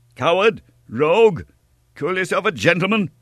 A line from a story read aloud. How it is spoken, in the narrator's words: cried D'Artagnan